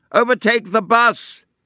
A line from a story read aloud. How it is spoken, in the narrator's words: demanded Scrooge at the top of his voice